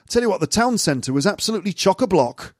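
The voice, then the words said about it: Generic northern English accent. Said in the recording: “I don't know why I'm doing a sort of generic northern accent, but I am.”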